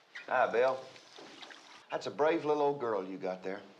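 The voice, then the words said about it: Put-on country accent. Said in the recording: “his whole demeanor changes when Bill comes into the bathroom and he's like got this country accent.”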